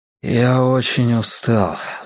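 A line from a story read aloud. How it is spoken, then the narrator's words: Sigh. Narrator (Russian): вздохнул Мэтью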